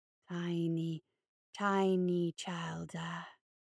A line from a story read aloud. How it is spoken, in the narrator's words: it breathed